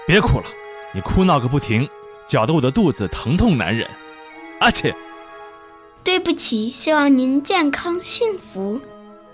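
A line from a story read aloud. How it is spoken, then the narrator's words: Roaring between sneezes. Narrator (Chinese): 打了几个喷嚏，戏团老板向匹诺曹吼道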